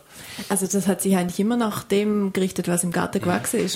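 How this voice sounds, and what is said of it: Lake Constance Swiss-tinged dialect. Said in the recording (German): “man hört es am Dialekt, Sie sind am Bodensee aufgewachsen ... mit Schweizer Dialekt”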